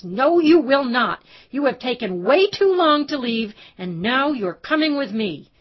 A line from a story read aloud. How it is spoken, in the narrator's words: Lauren shouted right in her face